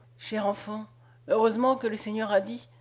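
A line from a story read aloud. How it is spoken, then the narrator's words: Murmured. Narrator (French): elle murmurait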